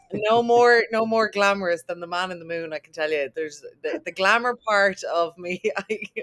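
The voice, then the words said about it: Irish accent. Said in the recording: “what a beautiful, lovely Irish accent!”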